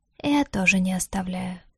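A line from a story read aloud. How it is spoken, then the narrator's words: Quiet reply. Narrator (Russian): тихо ответил Лютер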